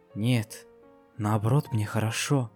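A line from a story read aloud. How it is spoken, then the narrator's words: Soft. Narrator (Russian): тихонько ответила единорожка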